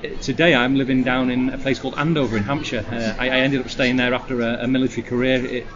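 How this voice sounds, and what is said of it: Lancashire northern English accent. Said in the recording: “Blackpool in Lancashire, as you might have guessed from the accent ... Not quite lost the accent, though.”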